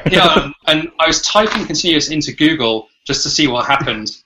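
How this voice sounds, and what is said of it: British accent. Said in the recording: “I've still got a British accent”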